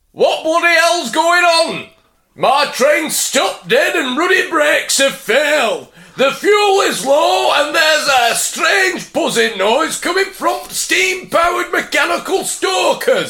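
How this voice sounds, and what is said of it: Thick Yorkshire accent. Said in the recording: “in a thick Yorkshire accent ... what's in a Yorkshire accent?”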